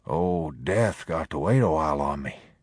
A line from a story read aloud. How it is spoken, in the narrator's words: He whispered thickly